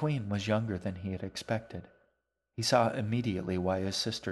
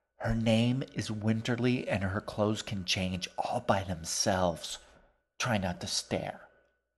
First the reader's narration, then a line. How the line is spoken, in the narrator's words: In the world's least quiet whisper, G added